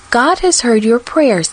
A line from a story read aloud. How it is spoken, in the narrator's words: said kindly